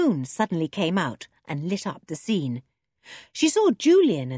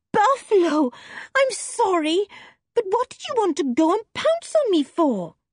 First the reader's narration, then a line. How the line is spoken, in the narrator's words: cried